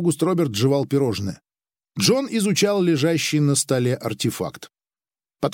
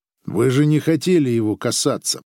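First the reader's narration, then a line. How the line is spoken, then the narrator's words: Gloomy. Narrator (Russian): сказал Григ мрачно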